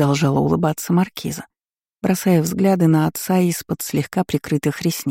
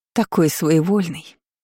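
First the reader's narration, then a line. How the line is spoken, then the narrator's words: Sad sigh. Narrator (Russian): печально вздохнула она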